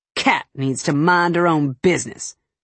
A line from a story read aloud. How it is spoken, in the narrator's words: I snorted